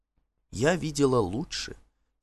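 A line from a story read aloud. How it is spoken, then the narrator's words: Quiet, as if to herself. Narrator (Russian): тихо ответила она, точно разговаривала сама с собой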